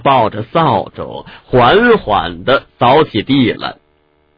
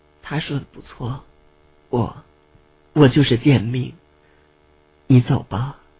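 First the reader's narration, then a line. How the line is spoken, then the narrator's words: Hoarse, dejected. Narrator (Chinese): 蓝雨目光中的光芒迅速暗淡下来，哑声道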